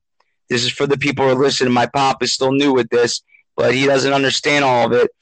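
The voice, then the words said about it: Impaired, muffled-sounding voice. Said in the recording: “I apologize for my voice. I've had bad toothache.”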